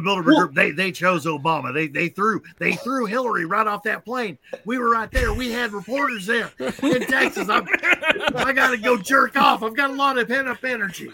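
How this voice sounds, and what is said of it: Imitates another person's voice. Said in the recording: “that's a very good impression.”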